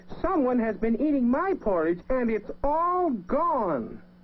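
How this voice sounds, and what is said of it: Small, wee character voice. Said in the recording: “in his wee little voice”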